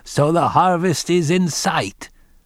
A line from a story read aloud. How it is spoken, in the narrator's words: He called out to his daughter-in-law